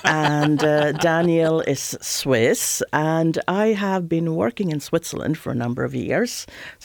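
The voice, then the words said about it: Swedish accent. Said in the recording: “I'm origin Swedish, so this is the original IKEA accent.”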